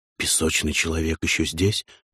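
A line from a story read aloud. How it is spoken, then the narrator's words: Whispered. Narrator (Russian): прошептал я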